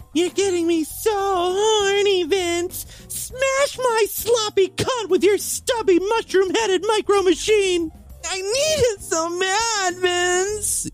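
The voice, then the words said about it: Man putting on a female voice. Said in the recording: “I should try doing a female voice ... I'm better at seducing a man when I'm playing a woman”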